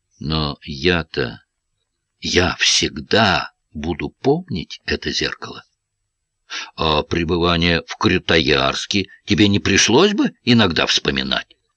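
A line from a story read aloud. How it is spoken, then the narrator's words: Slow speech. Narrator (Russian): Гаранин медленно сказал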